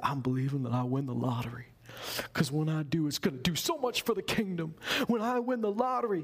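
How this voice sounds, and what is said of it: Put-on Southern American accent. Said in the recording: “they didn't have a southern accent. I don't know why I'm doing that.”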